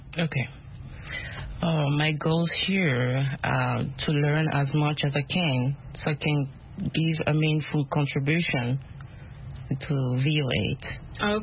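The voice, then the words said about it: Speaks with an accent. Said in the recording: “My accent. ... It's okay. We love accents. We all have accents.”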